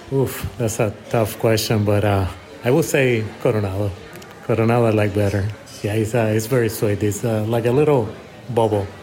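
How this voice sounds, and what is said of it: Puerto Rican accented English. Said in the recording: “I love the accent. ... I'm original from Puerto Rico.”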